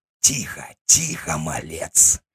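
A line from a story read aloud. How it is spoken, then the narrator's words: Hissed near ear. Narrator (Russian): прошипели у уха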